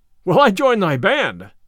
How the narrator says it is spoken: cried the tanner joyfully

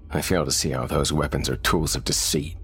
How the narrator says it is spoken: Thomas scoffed

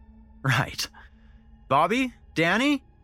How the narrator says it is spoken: Malcolm shouted playfully

